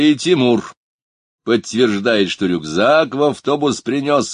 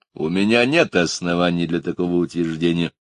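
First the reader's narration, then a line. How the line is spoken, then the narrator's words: Dry reply after pause. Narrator (Russian): помолчав, сухо ответил адвокат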